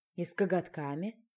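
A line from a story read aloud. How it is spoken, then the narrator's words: Sighing suggestion. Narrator (Russian): Вздохнув, я предложила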